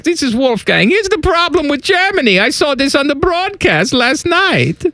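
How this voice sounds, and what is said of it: Put-on German accent. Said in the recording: “Is that your German accent? ... This is my German accent. ... You sound like Austin Powers. ... you don't sound anything like Austin Powers.”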